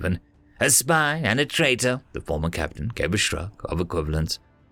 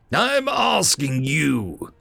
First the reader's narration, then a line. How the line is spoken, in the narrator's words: growled Stephen